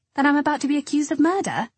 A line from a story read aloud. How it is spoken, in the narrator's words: exclaimed